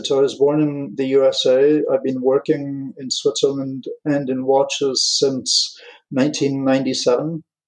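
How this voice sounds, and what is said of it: British English accent, blended. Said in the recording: “your beautiful accent ... Where about in the UK? ... I picked it up in Rickensworth. But it's been adapted in the canton de Schaffhausen, canton de Genève, canton de Vaud, and in France, so it's a blend.”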